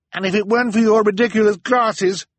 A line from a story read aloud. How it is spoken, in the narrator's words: Violet snapped in reply